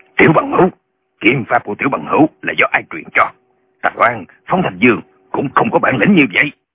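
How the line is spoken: Shouting. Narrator (Vietnamese): Lão Nhậm quát lên

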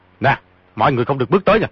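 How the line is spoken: Shout. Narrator (Vietnamese): quát

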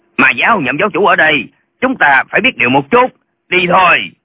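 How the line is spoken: Old man shouting. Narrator (Vietnamese): Lão quát

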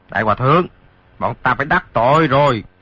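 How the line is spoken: Shouted. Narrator (Vietnamese): Hai tên lạc ma kia quát

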